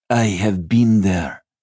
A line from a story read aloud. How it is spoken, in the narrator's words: she called crossly